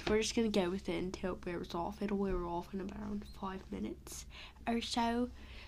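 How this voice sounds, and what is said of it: Put-on British accent. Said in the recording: “why am I now in a permanent British accent?”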